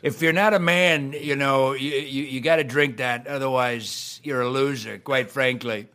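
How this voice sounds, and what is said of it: Donald Trump impression. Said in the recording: “I think I do a good Trump impression, ... And then I hear Josh do it”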